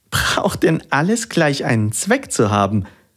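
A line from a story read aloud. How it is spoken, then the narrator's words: Child laughing. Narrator (German): lachte das Christkind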